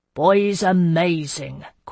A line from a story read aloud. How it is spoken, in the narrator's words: Quintilius Rouse said, settling by our fire with a grunt